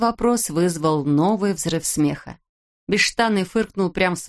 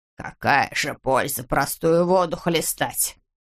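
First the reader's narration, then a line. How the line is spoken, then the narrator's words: Sullen grumble. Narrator (Russian): угрюмо проворчал Скуперфильд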